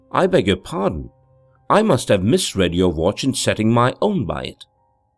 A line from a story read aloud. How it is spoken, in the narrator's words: replied calmly enough